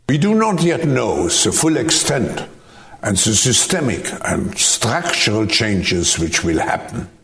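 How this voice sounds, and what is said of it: German accent. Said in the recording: “I love my tyranny with a German accent ... I prefer it in a German accent”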